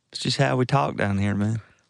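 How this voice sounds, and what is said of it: Put-on Southern US accent. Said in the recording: “the side cock when you're doing your southern accent”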